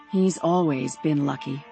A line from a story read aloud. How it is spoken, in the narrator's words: Rose said bitterly